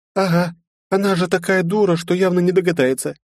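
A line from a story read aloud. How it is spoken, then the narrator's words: Snide, mocking. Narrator (Russian): ехидно произнесла Лиза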